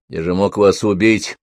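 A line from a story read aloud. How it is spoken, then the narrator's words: Grumbling mutter. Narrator (Russian): пробурчал Жан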